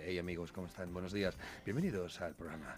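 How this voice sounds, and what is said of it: Put-on radio announcer voice. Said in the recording (Spanish): “modular ahí, poner voz de”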